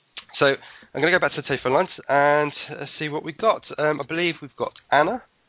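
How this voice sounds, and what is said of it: Out of breath speaking. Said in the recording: “I'm going to catch my breath ... I'm out of breath”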